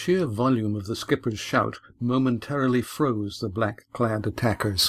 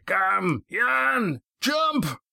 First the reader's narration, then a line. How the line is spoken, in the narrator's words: he bellowed